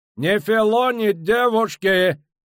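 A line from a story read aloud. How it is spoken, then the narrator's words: Shouted. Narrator (Russian): крикнул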